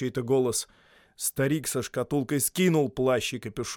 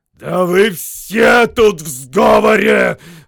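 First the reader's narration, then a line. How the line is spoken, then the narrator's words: Growl. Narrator (Russian): зарычал Торин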